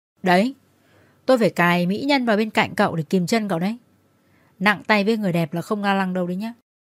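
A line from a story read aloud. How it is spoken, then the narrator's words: Cheeky, bursting with laughter. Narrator (Vietnamese): Anh Hải thấy tôi chịu ngồi gần thế thì nham nhở và cười phá lên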